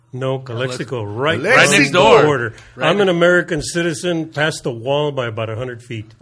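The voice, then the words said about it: Regional accent, not from LA. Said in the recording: “You got an accent. You're not from LA.”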